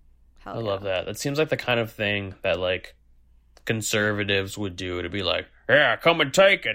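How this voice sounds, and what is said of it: Usual voice. Nothing is said of it.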